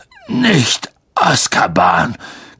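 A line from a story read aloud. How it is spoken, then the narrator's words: Croaking. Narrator (German): krächzte Hagrid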